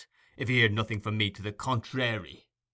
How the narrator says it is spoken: rejoined Sikes in a surly voice

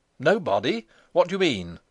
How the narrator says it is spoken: he exclaimed

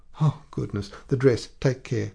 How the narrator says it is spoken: cried Madame Lefrançois

